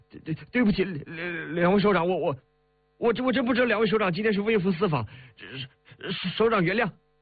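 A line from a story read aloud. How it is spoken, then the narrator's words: Stammering, flustered. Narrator (Chinese): 结结巴巴的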